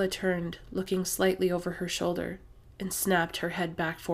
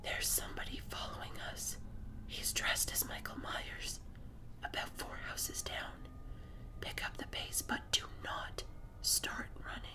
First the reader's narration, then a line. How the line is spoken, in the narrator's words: my voice trembling, and I whispered